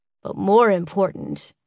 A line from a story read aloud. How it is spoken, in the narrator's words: he said, his voice an octave lower